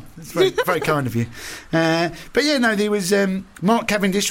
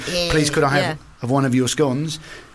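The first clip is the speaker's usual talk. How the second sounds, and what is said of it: Put-on continental European accent. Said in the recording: “a little accent ... my continental”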